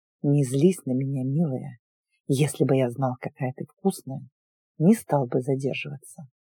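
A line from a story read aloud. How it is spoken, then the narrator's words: Man's intimate whisper. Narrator (Russian): мужчина прошептал мне в губы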